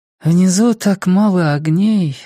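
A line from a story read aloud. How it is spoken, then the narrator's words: Sighing. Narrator (Russian): вздохнула Джулия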